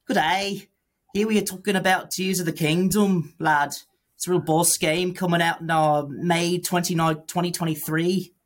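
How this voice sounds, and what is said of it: Put-on Manchester British accent. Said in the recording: “talking a British accent ... That's like your Manchester accent.”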